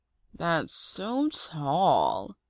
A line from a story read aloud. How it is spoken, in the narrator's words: Tyler drawls